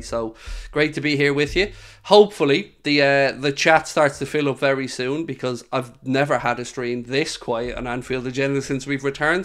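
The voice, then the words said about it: Slightly nasal, congested voice. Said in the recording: “hear from my voice, still a little bit nasally”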